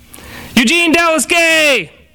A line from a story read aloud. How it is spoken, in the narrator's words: the Fizz shouted